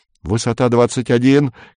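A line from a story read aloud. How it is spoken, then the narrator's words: Shout. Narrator (Russian): крикнул Горбовский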